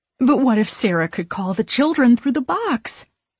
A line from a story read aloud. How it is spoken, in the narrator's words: Mary blurts